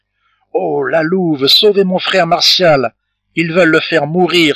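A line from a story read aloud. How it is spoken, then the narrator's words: Crying out. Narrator (French): s'écria François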